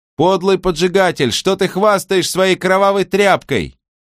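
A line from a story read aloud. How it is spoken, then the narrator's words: Shouted. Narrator (Russian): прокричала она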